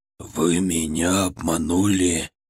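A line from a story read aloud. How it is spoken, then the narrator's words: Almost hissing. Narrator (Russian): Он почти шипел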